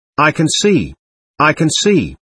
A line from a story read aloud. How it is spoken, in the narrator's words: she exclaimed, between fear and joy